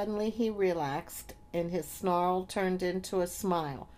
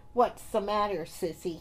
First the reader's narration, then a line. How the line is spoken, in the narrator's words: he snarled